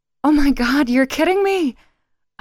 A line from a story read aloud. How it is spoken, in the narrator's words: I exclaimed